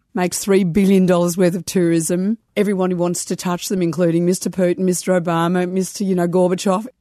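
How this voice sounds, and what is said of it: Noticeable regional accent. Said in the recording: “The accent is a useful clue.”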